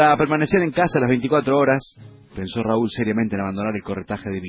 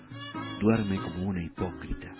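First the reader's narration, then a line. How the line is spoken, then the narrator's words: Puzzled waking murmur. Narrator (Spanish): al despertar, mirándola con extrañeza, murmuró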